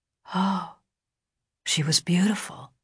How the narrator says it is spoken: Lurs whispered

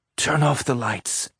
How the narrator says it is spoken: she mumbled, the words coming out of her dry throat in a whisper

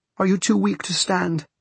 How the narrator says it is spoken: Celia cried suddenly

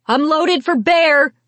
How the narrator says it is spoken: she yelled

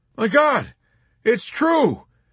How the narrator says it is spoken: Yossarian shrieked and collapsed against Nately in terror

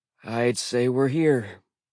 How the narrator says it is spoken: Blitz sighed

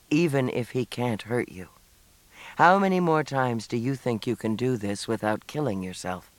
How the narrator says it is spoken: In a very steady voice, he said

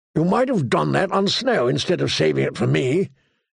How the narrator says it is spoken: the old bear grumbled

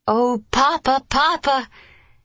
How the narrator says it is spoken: she suddenly exclaimed

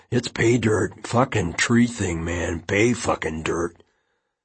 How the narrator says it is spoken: Josh said under his breath

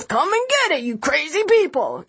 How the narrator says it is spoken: Annie shouts

